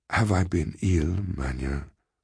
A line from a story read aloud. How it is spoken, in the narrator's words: he asked very feebly